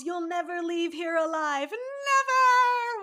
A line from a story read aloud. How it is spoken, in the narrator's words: Vertigo yells